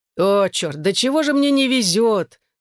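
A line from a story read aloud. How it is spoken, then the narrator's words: Grumbling. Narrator (Russian): заворчал таксист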